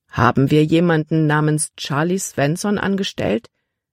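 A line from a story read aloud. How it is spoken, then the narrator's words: Plain question. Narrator (German): fragte Kapitän Norstad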